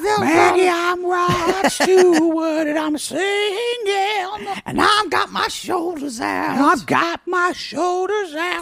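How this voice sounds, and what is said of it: Imitates another person's voice. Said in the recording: “I know my impression sounds just like him.”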